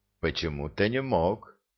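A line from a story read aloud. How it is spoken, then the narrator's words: Quiet, bewildered voice. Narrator (Russian): тихим растерянным голосом откликнулся Редькин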